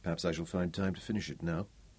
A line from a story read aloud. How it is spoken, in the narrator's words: he murmured